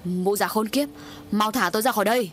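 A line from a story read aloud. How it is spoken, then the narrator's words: Shout. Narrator (Vietnamese): Mạnh quát lên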